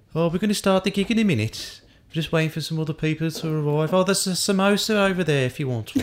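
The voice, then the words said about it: Put-on Birmingham accent. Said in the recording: “That was a good accent. That was good. ... All I can do is Birmingham. ... This is just an accent I'm putting on now.”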